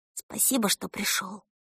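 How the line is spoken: Whispered. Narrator (Russian): Эльса шепнула

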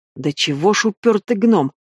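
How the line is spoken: Through gritted teeth. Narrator (Russian): процедила Гортензия

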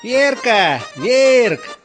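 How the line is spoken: Drunk man shouting. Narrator (Russian): кричал изрядно подпивший мужичок

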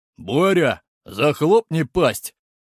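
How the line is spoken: Angry growl. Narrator (Russian): Зло рыкнули в ответ

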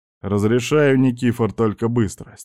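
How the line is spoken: Inner voice, heavy sigh. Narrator (Russian): мысленно тяжело вздохнул

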